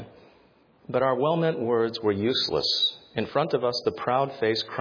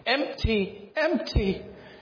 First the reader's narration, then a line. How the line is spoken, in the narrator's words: she choked at last through her tears